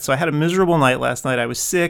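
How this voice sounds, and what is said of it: Sick-sounding voice. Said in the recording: “you can hear it in my voice, right? I'm a little bit sick, right? You can kind of hear that.”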